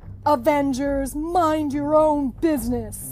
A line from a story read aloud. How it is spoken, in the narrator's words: the villain growled